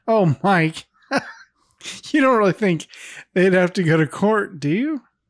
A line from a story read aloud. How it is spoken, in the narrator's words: Carol chuckles as if this is all a lighthearted joke and says